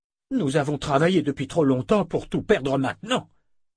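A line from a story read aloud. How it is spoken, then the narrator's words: Growl. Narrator (French): grogna Hildemara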